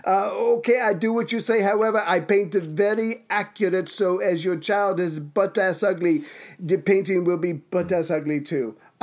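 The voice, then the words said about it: Failed put-on Italian accent. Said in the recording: “I don't know what accent that was. I was going for Italian, but I lost it somewhere halfway.”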